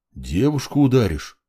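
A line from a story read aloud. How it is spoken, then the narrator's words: Surprised deep bass. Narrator (Russian): удивленно пробасил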